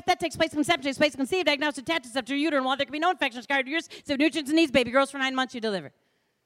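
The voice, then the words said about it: Very fast rushed speech. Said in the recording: “she said that so fast, I couldn't take notes”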